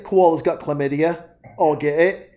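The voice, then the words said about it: Bad put-on Australian accent. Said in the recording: “you got the Australian going ... the horrible, impersonations”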